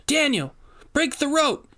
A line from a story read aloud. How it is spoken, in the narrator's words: she yelled as she wrestled Boswell to the ground